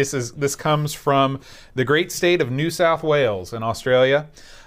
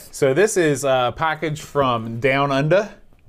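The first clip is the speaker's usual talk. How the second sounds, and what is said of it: Put-on Australian accent. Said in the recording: “That's my Australian accent.”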